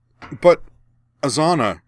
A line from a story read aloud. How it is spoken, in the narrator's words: Karana sputtered